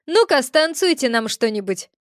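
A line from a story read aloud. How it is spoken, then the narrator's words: Smirking snort. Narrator (Russian): хмыкнул один из тех, что зашел справа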